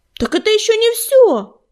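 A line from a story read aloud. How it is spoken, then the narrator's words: Shouting. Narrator (Russian): крикнул Горелый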